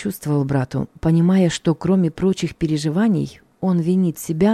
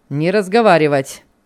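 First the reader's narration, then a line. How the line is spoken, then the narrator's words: Rough shout, policeman. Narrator (Russian): грубо прикрикнул на нас подошедший милиционер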